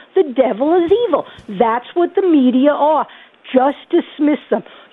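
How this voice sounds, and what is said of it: Strong Bronx New York accent. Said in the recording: “nice to have Joe Pesci's mother on. ... really strong Idaho accent ... I'm from the Bronx, okay? And the Bronx is coming out”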